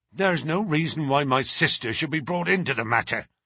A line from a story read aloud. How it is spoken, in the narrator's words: growled the younger man